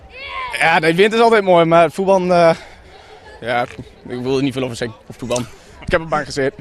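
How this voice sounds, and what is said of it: Regional Coevorden (Drents) Dutch accent. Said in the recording (Dutch): “dit accent vanuit het mooie Coevorden”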